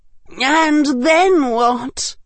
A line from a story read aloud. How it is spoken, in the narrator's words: gasped Flora and Hestia Carrow